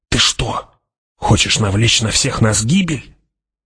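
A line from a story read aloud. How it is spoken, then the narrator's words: Hissed. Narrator (Russian): прошипел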